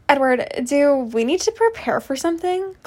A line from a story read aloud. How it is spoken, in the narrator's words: Cursily asked, hesitantly after seeing Jasper's sudden movement